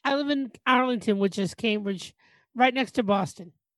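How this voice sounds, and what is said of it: Boston accent. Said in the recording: “with my Boston ... you know the Boston accent?”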